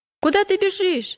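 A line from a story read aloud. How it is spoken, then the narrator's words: Shouted. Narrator (Russian): закричал Упрямый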